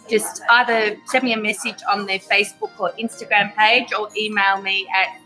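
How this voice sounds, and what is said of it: Italian accent. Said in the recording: “She just has her Italian accent.”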